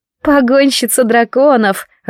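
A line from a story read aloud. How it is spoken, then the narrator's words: Laughing. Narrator (Russian): рассмеялась Латиша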